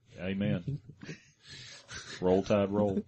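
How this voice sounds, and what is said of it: Put-on Alabama accent. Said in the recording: “With an Alabama accent.”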